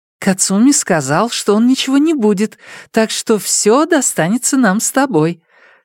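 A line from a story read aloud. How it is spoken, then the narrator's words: Joyful. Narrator (Russian): радостно сообщила она мужу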